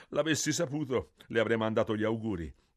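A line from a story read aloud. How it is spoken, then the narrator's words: Laughing, but hurt. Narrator (Italian): disse Mario e rise, ma si vedeva che c'era rimasto male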